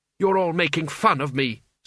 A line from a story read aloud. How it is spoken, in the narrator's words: snapped Kaylee